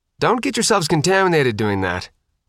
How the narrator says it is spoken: Faith replied, sharply

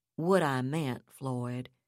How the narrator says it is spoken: he said in a softer, less bantering tone

